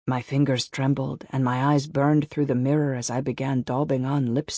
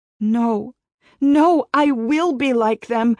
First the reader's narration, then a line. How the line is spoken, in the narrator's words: I cried